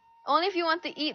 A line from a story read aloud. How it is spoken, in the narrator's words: Mom answered